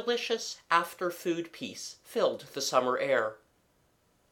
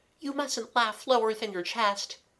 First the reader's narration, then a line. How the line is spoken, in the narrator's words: said Kathleen anxiously